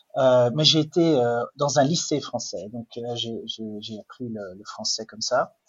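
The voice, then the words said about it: Flemish Belgian accent in French. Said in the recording (French): “peut-être que vous l'avez entendu à mon accent, mais je ne suis pas suisse, je ne suis pas français non plus, je suis belge... flamand... le français n'est pas ma langue maternelle”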